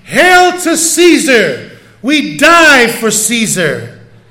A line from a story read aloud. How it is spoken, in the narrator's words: the gladiators yelling